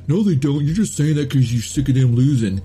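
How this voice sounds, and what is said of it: Poor imitation Boston accent. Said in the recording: “that was a shitty Boston accent”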